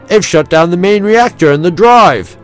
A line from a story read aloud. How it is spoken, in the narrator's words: His voice was as full of disbelief and concern as that of any human